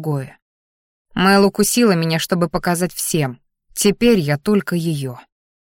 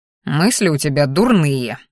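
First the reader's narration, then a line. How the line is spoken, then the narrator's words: Displeased snort, dragon. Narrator (Russian): недовольно фыркнул дракон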